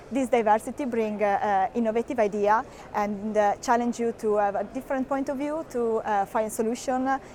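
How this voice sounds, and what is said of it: Italian accent. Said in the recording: “as you can hear from my accent, I'm Italian”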